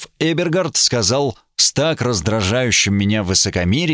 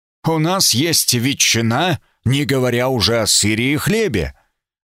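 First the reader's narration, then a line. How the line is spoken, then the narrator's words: Stern. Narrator (Russian): Граф Эбергард сказал строго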